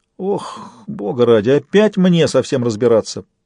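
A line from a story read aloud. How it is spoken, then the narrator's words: Grumbling. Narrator (Russian): проворчал Фист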